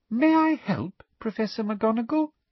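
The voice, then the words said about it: Poisonously sweet voice. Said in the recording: “in her most poisonously sweet voice”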